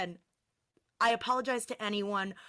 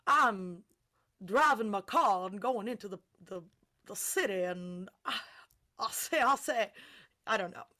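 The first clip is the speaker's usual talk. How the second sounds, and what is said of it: Posh non-rhotic Southern accent. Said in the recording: “the fancy schmancy Southern accent, they have a non-rhotic R ... I'm using stereotypical accents to get the point across ... improv accents”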